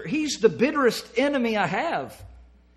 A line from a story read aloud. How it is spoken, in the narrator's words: exclaimed the old preacher